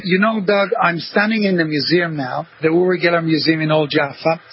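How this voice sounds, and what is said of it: Israeli accent mixed with American, British. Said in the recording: “I'm an Israeli, so I have this Israeli accent... I lived in America for 10 years and in England for 35 years, so it's kind of a mixture”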